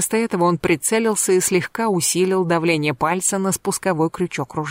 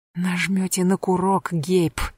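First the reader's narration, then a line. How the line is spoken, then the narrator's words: Angry whisper. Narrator (Russian): сердито прошептала она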